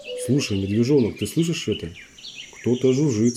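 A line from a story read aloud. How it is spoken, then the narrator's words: Plain. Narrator (Russian): сказал ежик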